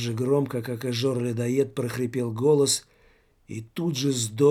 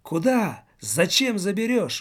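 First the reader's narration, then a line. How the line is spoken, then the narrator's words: Terrified shout. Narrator (Russian): успел выкрикнуть Жор-людоед, которого вдруг охватил ужас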